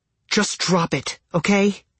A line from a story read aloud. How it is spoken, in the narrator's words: She hissed